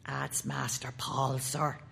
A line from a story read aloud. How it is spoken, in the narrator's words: said Bassett in a secret, religious voice